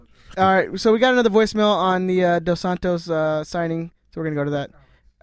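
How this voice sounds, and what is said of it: Radio announcer voice. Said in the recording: “It's my best radio voice.”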